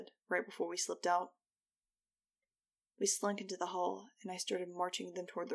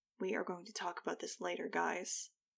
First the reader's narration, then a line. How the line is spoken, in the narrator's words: I said under my breath